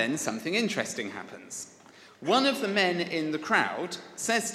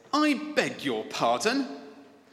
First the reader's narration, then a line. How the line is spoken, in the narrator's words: Brian's mother replies in a scandalized voice